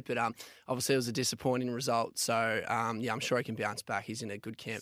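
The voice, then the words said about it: Sore, strained voice. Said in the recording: “My voice is a little bit sore after the Collingwood game on Saturday”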